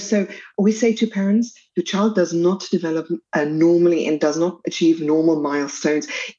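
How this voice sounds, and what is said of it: South African accent. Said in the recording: “as you can hear from my accent, I come from South Africa”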